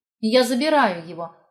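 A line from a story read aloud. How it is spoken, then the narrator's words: Firm. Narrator (Russian): сказала твердым голосом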